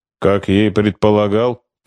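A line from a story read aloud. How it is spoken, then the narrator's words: Grumbling. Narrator (Russian): проворчал майор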